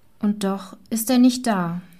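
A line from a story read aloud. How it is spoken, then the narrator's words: Maid's heavy sigh. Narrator (German): sagte die Maid wieder mit einem schweren Seufzer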